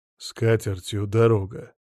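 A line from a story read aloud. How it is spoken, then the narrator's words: Grumbling, hungover. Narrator (Russian): буркнул Сила Игнатьевич, у которого голова после вчерашнего трещала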